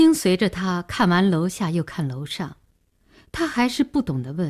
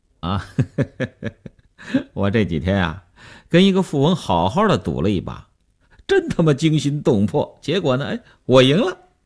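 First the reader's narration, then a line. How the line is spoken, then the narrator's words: Smiling. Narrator (Chinese): 刘文庆笑笑说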